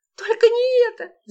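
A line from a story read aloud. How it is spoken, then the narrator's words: Frightened shriek. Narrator (Russian): завизжала Лола, представив, как огромная крыса взбирается по ее ноге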